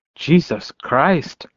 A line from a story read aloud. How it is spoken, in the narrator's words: Rico muttered